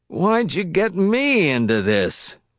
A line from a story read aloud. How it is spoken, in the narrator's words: Wisconsky moaned to Hall